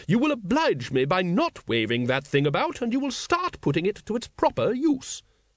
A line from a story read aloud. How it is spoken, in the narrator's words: she said sharply